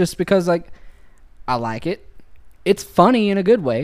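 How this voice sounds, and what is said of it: Usual voice. Nothing is said of it.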